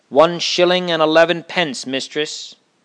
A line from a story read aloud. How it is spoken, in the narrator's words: the postman called out